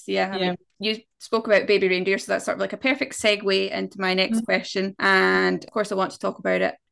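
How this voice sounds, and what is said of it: Scottish accent. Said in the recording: “she heard my accent that I was Scottish”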